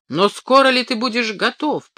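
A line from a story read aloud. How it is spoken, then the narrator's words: Thundering. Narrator (Russian): прогремел горный король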